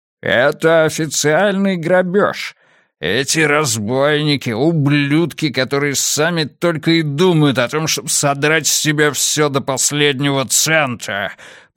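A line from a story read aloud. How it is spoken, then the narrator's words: Growling. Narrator (Russian): прорычал Хедли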